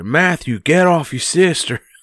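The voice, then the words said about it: Weak put-on American Southern accent. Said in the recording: “the only American accent I can do is a southern one, and it's not even very good”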